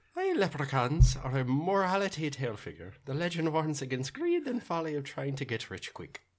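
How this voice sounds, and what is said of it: Put-on Irish leprechaun accent. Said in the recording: “you have the best accent ... leprechaun in accent ... a good Irish accent”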